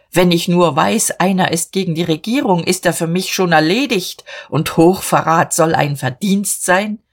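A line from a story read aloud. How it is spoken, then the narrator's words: Shouted. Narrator (German): schrie Dietrich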